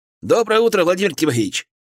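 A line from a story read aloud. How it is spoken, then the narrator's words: Cheerful greeting. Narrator (Russian): бодро поприветствовал меня Николай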